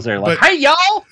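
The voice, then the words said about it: Put-on Southern accent. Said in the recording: “every time I do a Southern accent, it sounds like I'm dumbing somebody down”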